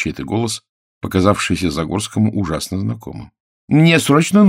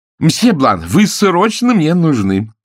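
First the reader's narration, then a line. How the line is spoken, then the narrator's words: Urgent shout. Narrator (Russian): прокричал импресарио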